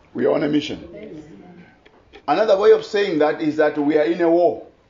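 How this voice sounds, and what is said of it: Non-native English accent. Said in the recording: “English is not your first language, neither is it mine. And my accent may be a bit different”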